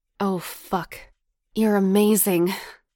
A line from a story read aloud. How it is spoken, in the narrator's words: he grunted with desire